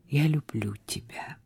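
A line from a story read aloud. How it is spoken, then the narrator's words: Soft. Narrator (Russian): проговорил он тихо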